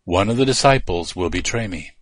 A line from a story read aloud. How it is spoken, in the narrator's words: Jesus said quietly, just to those disciples closest to him